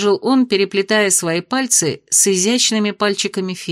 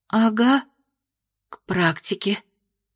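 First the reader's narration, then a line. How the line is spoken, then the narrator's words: Hoarse, embarrassed. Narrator (Russian): хрипло произнесла Майя, смущаясь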